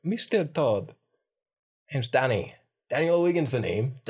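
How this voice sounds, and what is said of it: Put-on city Irish accent. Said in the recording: “this is more of a city Irish accent.”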